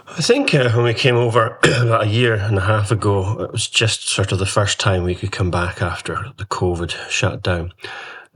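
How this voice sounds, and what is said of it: Scottish accent, no American twang. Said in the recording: “you've been away from Scotland ... congratulations for keeping your accent. It's great that you've not developed that mid-Atlantic twang”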